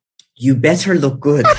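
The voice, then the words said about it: Imitating a mom's voice. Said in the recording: “in the mom voice”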